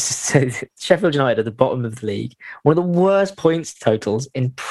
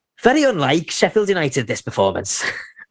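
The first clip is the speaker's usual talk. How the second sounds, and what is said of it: Imitates another person's voice. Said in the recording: “That was actually really good. I know we do a lot of bad impressions on here, but that was a really good one.”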